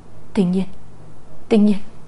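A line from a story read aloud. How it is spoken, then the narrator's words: Trembling call. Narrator (Vietnamese): Nam Cung Thiên An ... giọng run rẩy gọi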